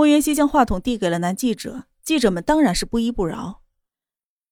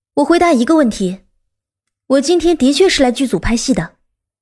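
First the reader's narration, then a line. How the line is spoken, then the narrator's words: Forceful, smiling. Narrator (Chinese): 他唇角勾着笑，声音铿锵有力的说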